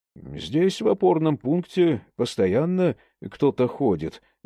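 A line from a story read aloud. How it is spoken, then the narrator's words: Plain. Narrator (Russian): сказал Абрамов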